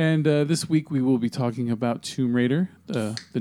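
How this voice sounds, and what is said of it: Usual voice. Nothing is said of it.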